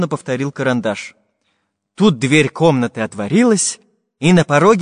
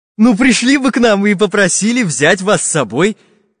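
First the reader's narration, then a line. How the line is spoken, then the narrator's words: Cheerful. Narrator (Russian): весело сказал Карандаш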